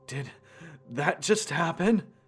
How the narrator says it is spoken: said through pain gasps of air

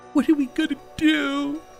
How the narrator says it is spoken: She sobbed into my shoulder

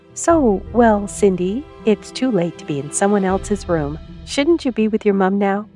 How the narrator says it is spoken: asked sweetly

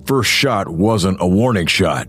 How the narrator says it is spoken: Hank grunted

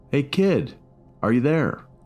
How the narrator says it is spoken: called out again

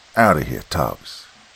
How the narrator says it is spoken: rasps

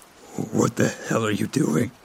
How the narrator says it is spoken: Stanley stuttered, having turned even more pale

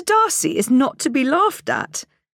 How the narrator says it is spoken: cried Elizabeth

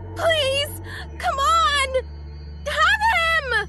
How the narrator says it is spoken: she screamed

